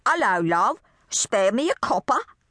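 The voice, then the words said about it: Deliberately bad English accent. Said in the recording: “she said in a really horrible English accent”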